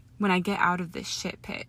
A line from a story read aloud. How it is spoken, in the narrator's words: he started with a dark murmur